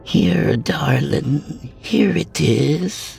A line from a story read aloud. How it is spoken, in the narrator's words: she whispered